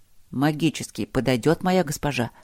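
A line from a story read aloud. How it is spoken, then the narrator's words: Half-whispered clarification. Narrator (Russian): почему-то полушепотом уточнил Зигфрид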